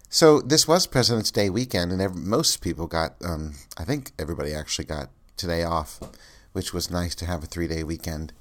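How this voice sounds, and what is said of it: Congested, stuffed-up nasal voice. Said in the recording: “I have some major sinus issues going on, so that's why my voice sounds different today ... clogged nose and stuffed up sinuses and just sounding awful”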